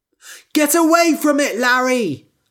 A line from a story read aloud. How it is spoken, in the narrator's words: I shouted